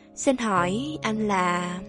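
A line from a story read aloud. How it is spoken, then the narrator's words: Soft, timid question. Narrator (Vietnamese): Cô hơi cúi đầu rồi khẽ hỏi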